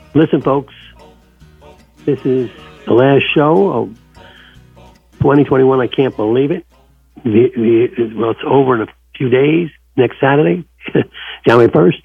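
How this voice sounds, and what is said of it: Weak, fading voice. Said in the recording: “My voice is going out.”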